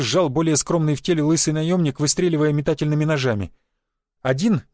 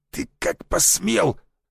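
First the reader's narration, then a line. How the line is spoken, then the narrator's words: Hissing. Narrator (Russian): зашипел он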